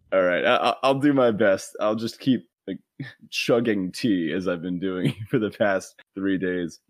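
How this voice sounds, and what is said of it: Gravelly voice with a cold. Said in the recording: “I'm a little under the weather. You might be able to hear my voice. I got a bit of a cold... my voice is just a little more gravelly now than it usually is”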